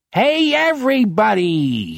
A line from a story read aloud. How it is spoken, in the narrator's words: bellows